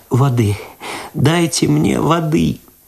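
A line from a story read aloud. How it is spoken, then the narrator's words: Sobbing aloud, moaning. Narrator (Russian): В голос зарыдала Люда ... простонала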